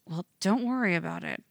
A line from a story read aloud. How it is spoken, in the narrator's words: Tim mutters